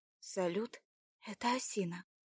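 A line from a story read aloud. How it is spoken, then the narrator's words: Quiet, over radio. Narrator (Russian): тихо вымолвила в рацию Марина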